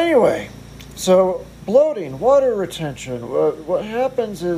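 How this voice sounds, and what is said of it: Usual voice. Nothing is said of it.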